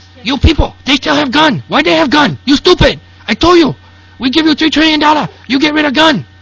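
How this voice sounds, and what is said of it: Mock Chinese accent, self-described poor. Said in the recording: “I can't do a good Chinese accent anymore.”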